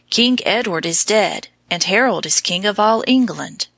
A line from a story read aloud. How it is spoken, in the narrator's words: a rider whispered hastily